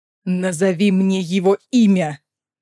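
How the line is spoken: Growled. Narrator (Russian): прорычал Дорин

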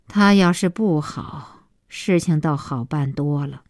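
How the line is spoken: Long sigh. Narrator (Chinese): 小西妈长叹

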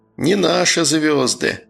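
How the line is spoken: Sighing. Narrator (Russian): вздохнул он

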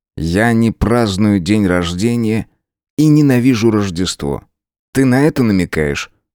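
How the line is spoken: Plain. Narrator (Russian): спросил он

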